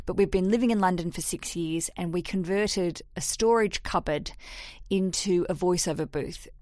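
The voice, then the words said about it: Australian accent. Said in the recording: “I'm Australian ... Couldn't get the idea of the accent.”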